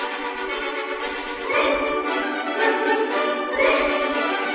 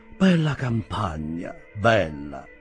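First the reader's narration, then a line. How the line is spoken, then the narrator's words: Enthusiastic sigh, gentleman. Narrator (Italian): sospirò quell'entusiastico signore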